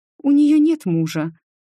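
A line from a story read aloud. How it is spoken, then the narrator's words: Sad mother. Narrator (Russian): печально ответила мама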